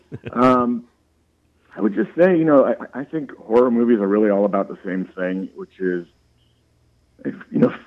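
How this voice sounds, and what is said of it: Creaky, failing voice from cold. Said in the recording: “my voice is starting to go. Battling this cold ... it's got that creaky voice”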